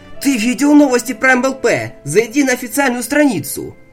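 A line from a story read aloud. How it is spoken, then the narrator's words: Shout. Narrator (Russian): выкрикнул Тёмыч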